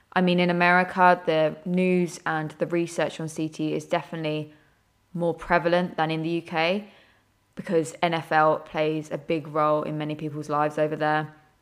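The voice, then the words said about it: British accent. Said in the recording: “If you couldn't tell by our accents, I'm based in the UK”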